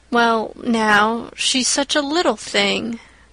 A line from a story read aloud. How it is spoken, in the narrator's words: feebly reiterated Matthew